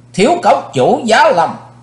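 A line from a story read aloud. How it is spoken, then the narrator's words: Loud announcing shout. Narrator (Vietnamese): Cầu quát báo hiệu của hai chiếc bóng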